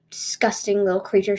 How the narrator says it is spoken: she hissed

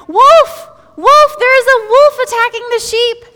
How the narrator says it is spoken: he cried

